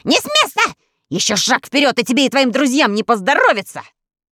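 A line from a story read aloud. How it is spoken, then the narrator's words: Vicious shriek. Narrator (Russian): Он злобно провизжал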